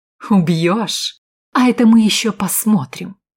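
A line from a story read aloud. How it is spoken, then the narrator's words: Sudden exclamation. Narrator (Russian): вдруг воскликнула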